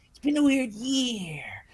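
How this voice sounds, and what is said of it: Jennifer Coolidge impression. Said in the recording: “My Jennifer Coolidge impression.”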